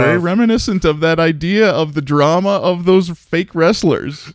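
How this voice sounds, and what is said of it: Usual voice. Nothing is said of it.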